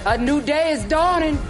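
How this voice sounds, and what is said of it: New Orleans accent. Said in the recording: “Was that a New Orleans accent? ... It was inspired by, I love the dialect of Louisiana, New Orleans more specifically”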